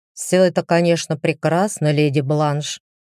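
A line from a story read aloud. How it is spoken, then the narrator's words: Grumbling. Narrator (Russian): ворчливым тоном заявил Люциус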